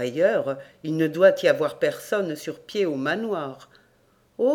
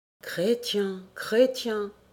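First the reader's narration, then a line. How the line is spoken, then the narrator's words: Sighing. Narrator (French): soupira la bête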